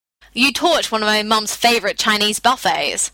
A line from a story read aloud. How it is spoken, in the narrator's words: said irritably